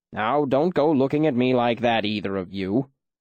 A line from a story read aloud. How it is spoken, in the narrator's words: Ben said testily